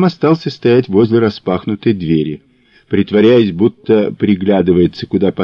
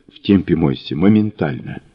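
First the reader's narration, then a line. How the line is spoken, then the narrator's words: Quick whisper. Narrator (Russian): он шепотом бросил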